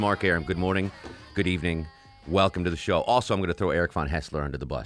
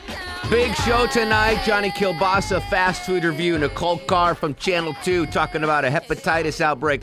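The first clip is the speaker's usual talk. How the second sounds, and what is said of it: Chicago accent. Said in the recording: “All of a sudden, I'm talking with a Chicago accent.”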